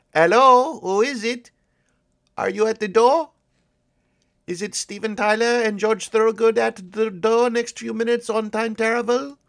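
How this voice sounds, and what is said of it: Put-on accent. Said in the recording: “Are you annoyed with this accent yet?”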